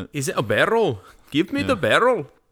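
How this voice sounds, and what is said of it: Poorly done put-on accent. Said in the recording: “That was a terrible accent. ... Oh, I thought that was great.”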